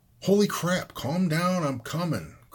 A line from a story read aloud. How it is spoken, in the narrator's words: Chris hollered